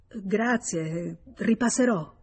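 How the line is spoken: Dazed stammer. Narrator (Italian): Senza capir ciò che stava dicendo, balbettò

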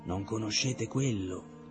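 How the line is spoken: Faint sigh. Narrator (Italian): sospirò fievolmente

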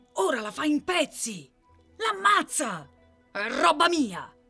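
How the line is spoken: Shouting. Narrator (Italian): urla Mikolka

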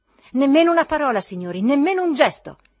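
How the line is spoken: Solemn shout. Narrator (Italian): gridò solennemente Zverkov

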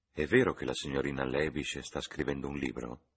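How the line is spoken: Reverent tone. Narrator (Italian): continuò Lucy in tono riverente

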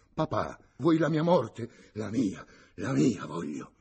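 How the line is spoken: Old man exclaiming. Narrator (Italian): esclamò il vecchio

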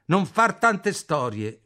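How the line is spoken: Shouting. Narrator (Italian): mi grida

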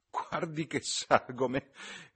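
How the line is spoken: Laughing. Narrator (Italian): rise la signorina Levish

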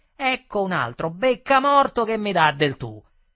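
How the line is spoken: Shouted in face. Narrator (Italian): mi gridò in faccia

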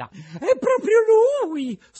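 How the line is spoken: Shrill woman's shriek. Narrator (Italian): strilla la signora Rosaura

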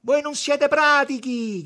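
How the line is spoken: Shouting. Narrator (Italian): gridava

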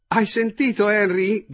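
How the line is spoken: Shouted across the table. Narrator (Italian): gridò la signora Braddock al marito che sedeva all'altro capo della tavola

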